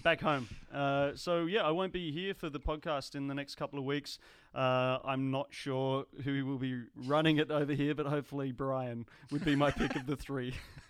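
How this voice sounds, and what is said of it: Australian accent. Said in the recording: “My accent will be absent from the podcast because I'm going home to the motherland ... Back to Australia.”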